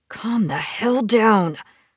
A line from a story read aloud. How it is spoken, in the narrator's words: I growled at myself, my voice gruff with my wolf